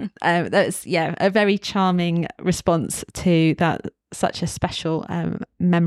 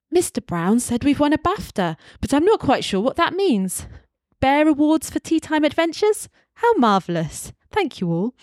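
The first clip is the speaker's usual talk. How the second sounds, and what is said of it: Imitates Paddington Bear's voice. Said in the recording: “do my best Paddington voice ... I will do my Paddington voice”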